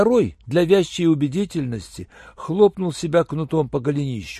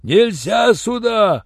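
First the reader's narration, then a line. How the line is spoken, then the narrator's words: Loud yell. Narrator (Russian): заорал Юренев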